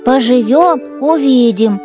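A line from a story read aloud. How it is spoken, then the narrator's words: Grumbling. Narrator (Russian): проворчал медвежонок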